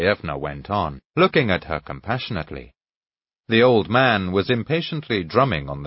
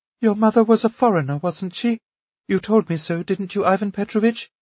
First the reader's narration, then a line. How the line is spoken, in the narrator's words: the old lady persisted timidly